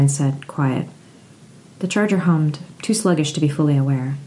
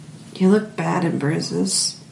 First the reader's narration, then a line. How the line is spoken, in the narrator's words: she murmured